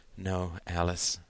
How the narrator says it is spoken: said softly, her eyes cast down

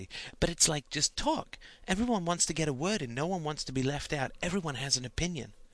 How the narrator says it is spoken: whispered more seriously

